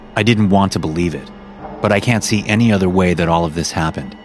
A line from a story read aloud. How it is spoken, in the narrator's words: he said bitterly